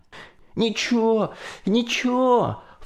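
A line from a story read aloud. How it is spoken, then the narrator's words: Sobbing from cold. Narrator (Russian): Всхлипывая от холода, Колька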